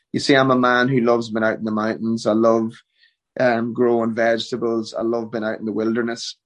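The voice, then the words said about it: Irish accent. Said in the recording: “I'm Irish through and through ... it reinvigorates my accent to protect me from the Americanisms”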